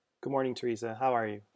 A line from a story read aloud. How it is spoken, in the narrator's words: Francis asked flatly